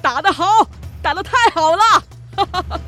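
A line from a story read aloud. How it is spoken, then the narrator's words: Cheering, releasing pent-up resentment. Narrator (Chinese): 帕斯巴德心中的怨气仿佛也随着霍格这一拳全都发泄出来，他喝彩着叫道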